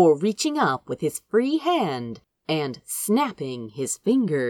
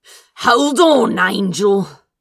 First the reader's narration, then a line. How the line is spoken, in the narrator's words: He growled